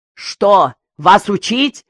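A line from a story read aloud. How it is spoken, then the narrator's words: Indignant shout. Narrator (Russian): крикнул Еремеев, в негодовании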